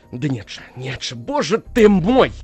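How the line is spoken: Shouting. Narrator (Russian): кричал он

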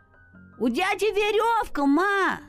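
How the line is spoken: Child shouting. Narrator (Russian): закричал мальчик матери

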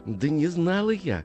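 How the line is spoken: Pleading mother. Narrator (Russian): взмолилась мать

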